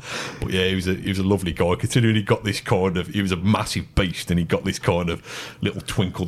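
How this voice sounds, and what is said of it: Birmingham Brummie accent. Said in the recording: “my accent ... any Brummie role”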